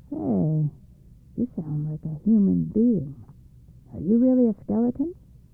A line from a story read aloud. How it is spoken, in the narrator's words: The evil spirit, hearing a strange voice, said in a puzzled voice